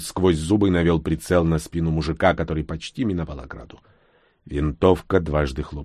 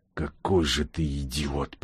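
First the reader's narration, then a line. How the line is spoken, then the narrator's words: Whisper. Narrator (Russian): прошептал бур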